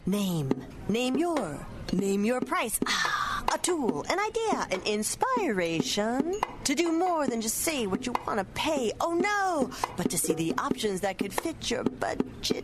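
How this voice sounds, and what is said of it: Beat poet style voice. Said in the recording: “my impression of a beat poet”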